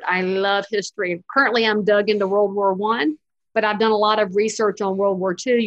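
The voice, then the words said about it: Southern American accent. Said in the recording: “my accent lets me get away with a lot of them ... I'm a Southerner”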